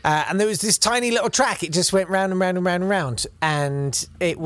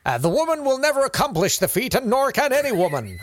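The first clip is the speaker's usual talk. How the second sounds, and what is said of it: Theatrical American accent. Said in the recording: “do that American theatrical voice”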